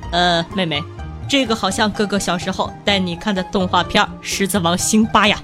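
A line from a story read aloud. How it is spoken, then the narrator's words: Pleased, smiling. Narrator (Chinese): 我哥终于满意的……笑眯眯的对我说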